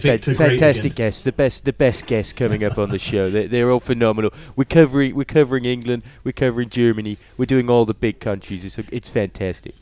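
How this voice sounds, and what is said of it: Donald Trump impression. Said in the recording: “If you put on a Trump accent for that, that would have fit.”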